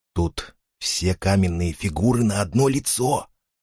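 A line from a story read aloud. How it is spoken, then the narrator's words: Whisper. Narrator (Russian): шепнул ей Фарид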